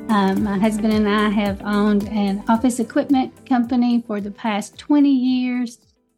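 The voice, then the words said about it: Kentucky accent. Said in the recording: “I live in Kentucky. I can't hide my accent no matter how hard I try.”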